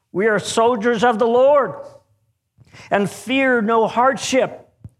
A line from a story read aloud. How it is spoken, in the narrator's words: shouted